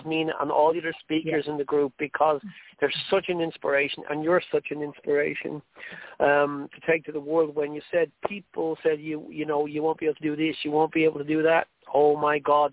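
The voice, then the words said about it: Irish accent. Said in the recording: “my Irish accent ... sometimes it's very hard for people to understand it. So I'm going to speak slow.”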